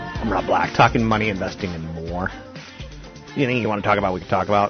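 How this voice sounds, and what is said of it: Sore-throated, strained voice. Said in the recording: “Got a little bit of a sore throat ... My voice is a little, I don't want to do too much with it because I'll start going vocal fry”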